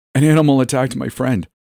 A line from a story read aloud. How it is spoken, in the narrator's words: sputtered out